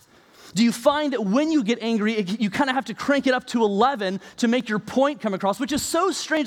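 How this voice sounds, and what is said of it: Yelling preacher voice. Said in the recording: “I realize the irony that I'm yelling right now”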